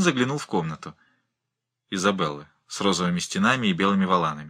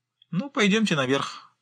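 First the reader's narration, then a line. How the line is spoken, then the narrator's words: Cheerful. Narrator (Russian): бодро сказала Джоанна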